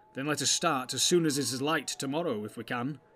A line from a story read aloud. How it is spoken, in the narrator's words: said Boromir